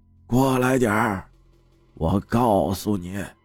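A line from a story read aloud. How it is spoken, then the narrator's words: Whisper. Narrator (Chinese): 小声的说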